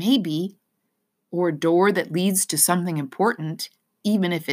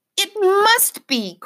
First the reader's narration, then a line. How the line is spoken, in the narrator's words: cried Lena, and her heart sped up